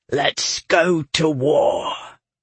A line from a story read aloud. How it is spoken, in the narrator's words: growled